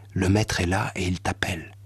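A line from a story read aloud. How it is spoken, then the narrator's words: Said in a low voice. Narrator (French): lui dit à voix basse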